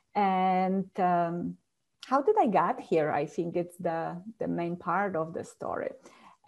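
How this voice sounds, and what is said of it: Polish accent. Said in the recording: “the secret of my accent ... I'm from Poland”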